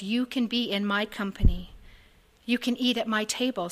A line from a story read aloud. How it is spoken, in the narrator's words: says Jesus